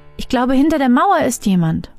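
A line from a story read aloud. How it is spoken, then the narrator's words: Called out. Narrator (German): Aduma rief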